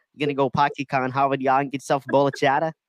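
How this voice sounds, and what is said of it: Put-on Boston accent. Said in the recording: “I thought you were bringing out your Boston accent.”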